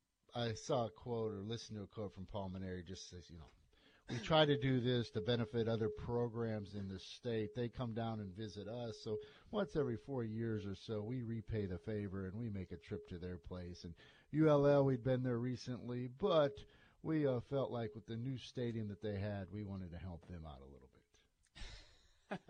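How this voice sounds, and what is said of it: Poor imitation of another person's voice. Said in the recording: “my Paul Maneri impersonation ... That was awful, by the way ... You need a lot higher pitch, yeah.”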